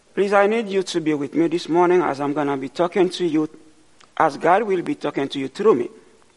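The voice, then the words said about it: Speaks with a noticeable accent. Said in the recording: “my accent is not as pleasant as yours”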